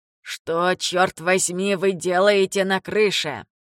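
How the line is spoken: Grumbling man. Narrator (Russian): проворчал мужчина, которого Гас назвал Рупертом

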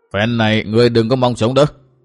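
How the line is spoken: Menacing, through gritted teeth. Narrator (Vietnamese): Hỏa Vân quái Phật chiếu đôi mắt sáng, phát ra ánh sáng đỏ dữ tợn nhìn Tư Mã Minh, gằn giọng nói

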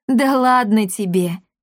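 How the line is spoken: Woman laughing. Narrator (Russian): рассмеялась женщина

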